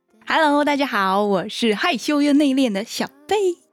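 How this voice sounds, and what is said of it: Taiwanese-accented Mandarin. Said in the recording (Chinese): “你的口音听起来怪怪的 ... 其实我是一个来自台湾的朋友”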